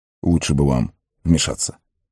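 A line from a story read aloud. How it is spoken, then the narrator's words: Quick whisper. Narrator (Russian): быстро шепнул ему Колоброд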